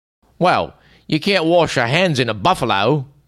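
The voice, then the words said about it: Put-on Cockney accent. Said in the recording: “in his best Cockney accent”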